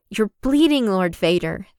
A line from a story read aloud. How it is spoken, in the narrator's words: snaps at him